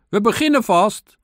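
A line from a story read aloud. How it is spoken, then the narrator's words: Ant calling out. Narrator (Dutch): riep de mier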